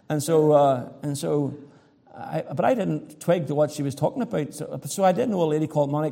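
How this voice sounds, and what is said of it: Irish accent. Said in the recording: “a lady heard my accent ... She heard my accent. ... I'm from Ireland.”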